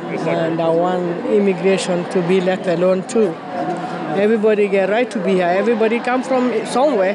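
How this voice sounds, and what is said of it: African-accented English. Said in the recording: “guessing ... From your accent. ... Africa.”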